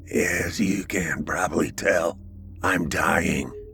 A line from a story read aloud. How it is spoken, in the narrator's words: In a voice barely above a whisper, he said